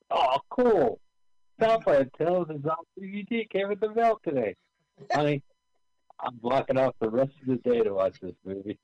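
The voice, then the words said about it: Imitates another person's voice. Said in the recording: “my impression of Carl”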